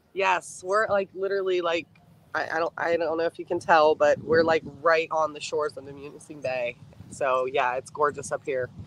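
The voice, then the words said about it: Kentucky twang accent. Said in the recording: “my Kentucky twang”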